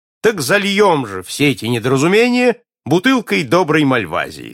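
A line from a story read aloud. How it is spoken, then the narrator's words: Cheerful. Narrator (Russian): сказал весело принц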